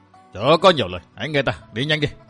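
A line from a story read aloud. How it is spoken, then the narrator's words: Sharp shout. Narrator (Vietnamese): Ôn Hoàng Khai quát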